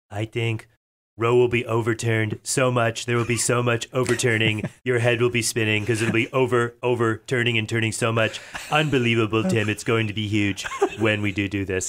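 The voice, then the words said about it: Imitates another person's voice. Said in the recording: “That is a really good imitation of John Travolta.”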